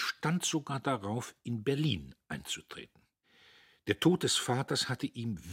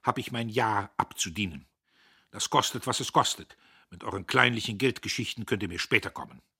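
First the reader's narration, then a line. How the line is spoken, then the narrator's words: Rough voice. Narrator (German): sagte er rau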